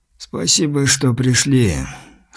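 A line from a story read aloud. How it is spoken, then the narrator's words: Hoarse voice. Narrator (Russian): хриплым голосом заговорил главный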